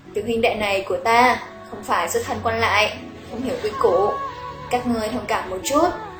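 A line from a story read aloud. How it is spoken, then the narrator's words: Smiling. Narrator (Vietnamese): Lý Quân Hiền mỉm cười nói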